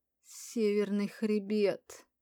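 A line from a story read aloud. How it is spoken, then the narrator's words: Moaning, doubled over. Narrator (Russian): Простонала, согнувшись пополам я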